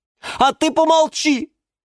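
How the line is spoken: Shouted. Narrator (Russian): крикнула ей герань Антонина

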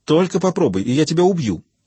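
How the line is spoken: Sharp snapping retort. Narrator (Russian): огрызнулась Анна

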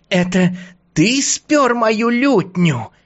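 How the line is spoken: Tiny creature's squeak. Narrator (Russian): пропищало создание

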